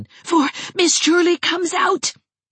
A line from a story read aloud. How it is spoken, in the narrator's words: gasped Geraldine